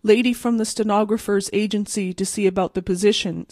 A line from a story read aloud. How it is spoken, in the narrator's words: said Pitcher